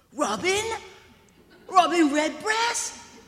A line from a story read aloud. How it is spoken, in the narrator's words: she shouted